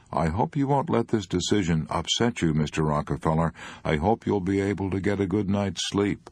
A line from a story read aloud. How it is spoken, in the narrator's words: said, with concern